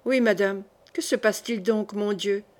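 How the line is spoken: Plain. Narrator (French): demanda le duc

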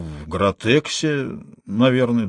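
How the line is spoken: Uncertain. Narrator (Russian): Серенький неуверенно сказал

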